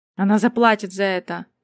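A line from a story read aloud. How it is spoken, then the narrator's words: Weak exhausted growl. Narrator (Russian): прорычал, собирая последние остатки силы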